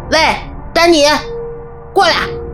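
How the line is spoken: Shouting. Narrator (Chinese): 菲尔…大喊

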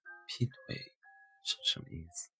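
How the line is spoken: Sudden laughter. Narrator (Chinese): 突然笑了起来

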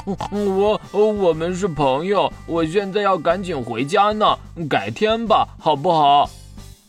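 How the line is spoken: Trembling voice. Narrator (Chinese): 哼哼猪说话的声音变得哆哆嗦嗦的

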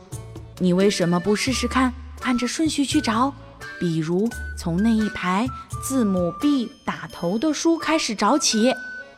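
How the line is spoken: Quiet. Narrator (Chinese): 我小声说

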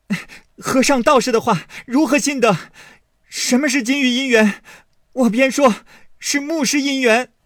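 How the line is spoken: Shouting scolding in sleep. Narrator (Chinese): 宝玉在梦中喊骂说

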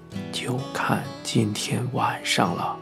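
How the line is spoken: Quiet, low voice. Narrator (Chinese): 主治医生小声的告诉他

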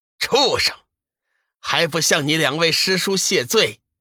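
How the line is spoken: Stern rebuke. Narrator (Chinese): 天机子厉声喝道

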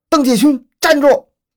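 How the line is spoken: Loud command. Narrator (Chinese): 高声喝令

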